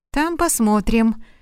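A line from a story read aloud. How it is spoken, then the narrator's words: Calm, to himself. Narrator (Russian): спокойно сказал себе Мелькиадес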